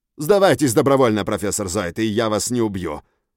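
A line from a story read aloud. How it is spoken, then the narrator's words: Barked. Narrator (Russian): рявкнул Валькирий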